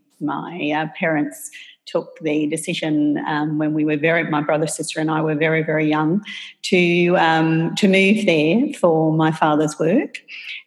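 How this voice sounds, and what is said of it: Australian accent. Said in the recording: “everybody can tell by my accent that I'm Australian”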